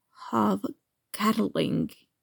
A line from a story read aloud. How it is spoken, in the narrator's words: his friend whispers, wonder airy in his voice